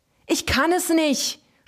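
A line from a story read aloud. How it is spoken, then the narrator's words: Screaming. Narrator (German): schrie er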